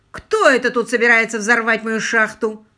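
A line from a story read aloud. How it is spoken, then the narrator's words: Growled. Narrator (Russian): рыкнула она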